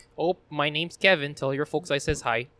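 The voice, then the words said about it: Put-on Wisconsin Midwest accent. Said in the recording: “You had to do the Wisconsin accent ... I might go Midwest a little bit”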